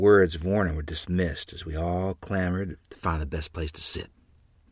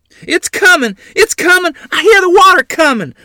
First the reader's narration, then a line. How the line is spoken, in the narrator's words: Mother screamed